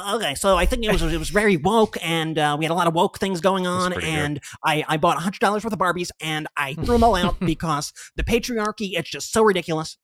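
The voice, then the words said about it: Fast-talking Ben Shapiro impression. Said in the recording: “do your Ben Shapiro impression ... The speed was perfect. Your impression. ... The key is the speed. The key is you want to speak as if you're on fast forward mode”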